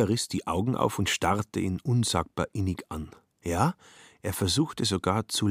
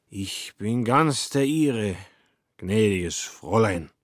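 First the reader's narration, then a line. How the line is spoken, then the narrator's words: Slurred. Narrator (German): lallte er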